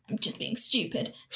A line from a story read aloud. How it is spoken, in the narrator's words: she muttered